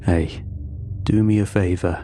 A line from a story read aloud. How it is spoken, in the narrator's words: he added, lowering his voice